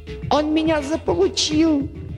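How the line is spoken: Shrieked. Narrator (Russian): взвизгнул Дерг

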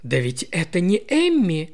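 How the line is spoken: Surprised exclamation. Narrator (Russian): воскликнула она

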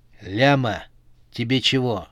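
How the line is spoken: Rude question. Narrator (Russian): грубо спросила его Эльза

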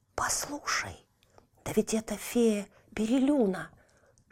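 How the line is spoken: Whisper in ear. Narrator (Russian): шепнул Тильтиль на ухо сестре

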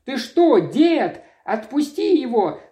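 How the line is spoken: Shouted. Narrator (Russian): закричала Мэри

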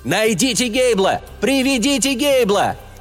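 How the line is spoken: Shout. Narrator (Russian): Кто-то сообразил крикнуть

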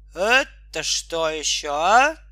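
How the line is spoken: Stern question. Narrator (Russian): строго спрашивал он

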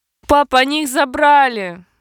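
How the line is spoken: Sobbing. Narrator (Russian): разрыдалась Пушанна

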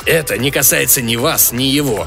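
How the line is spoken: Rude, harsh. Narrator (Russian): грубо ответил Крес

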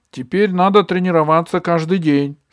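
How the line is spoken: Excited. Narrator (Russian): сказала Габи взволнованно

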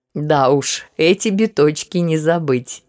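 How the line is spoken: Bursting laughter, emperor. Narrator (Russian): не выдержав, рассмеялся император

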